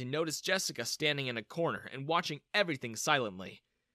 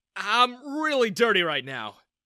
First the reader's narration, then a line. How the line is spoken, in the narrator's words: I exclaimed